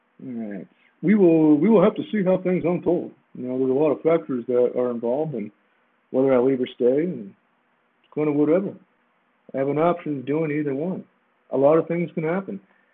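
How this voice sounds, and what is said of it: Imitates another person's voice. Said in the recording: “Give you my best Trevor Lawrence impersonation.”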